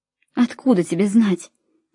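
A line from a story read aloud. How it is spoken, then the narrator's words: Speaking through sobs. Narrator (Russian): сказала я между всхлипами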